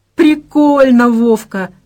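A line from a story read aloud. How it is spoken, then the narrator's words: Laughing. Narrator (Russian): рассмеялась Надя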